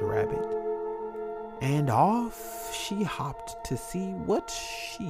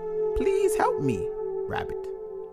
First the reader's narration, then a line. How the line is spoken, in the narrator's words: chirped